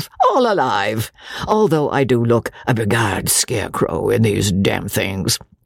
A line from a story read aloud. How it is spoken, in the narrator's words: he said, with his funny, inane laugh